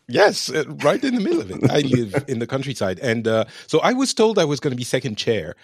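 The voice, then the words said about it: French accent. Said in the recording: “You get the Frenchman. Ah. We can talk about video games with a lovely French accent.”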